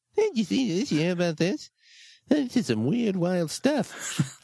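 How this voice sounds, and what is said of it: Imitates another person's voice. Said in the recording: “I'm trying to do the Johnny Carson voice while saying Jay Leno lines, and I'm having a lot of trouble with it. I keep slipping into the Leno voice.”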